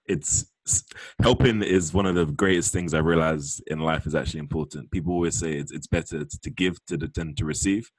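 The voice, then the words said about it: Southeast London English accent. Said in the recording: “I love your accent. It's so cute ... come to London more often, man. Everyone sounds like us ... London, Southeast to be exact”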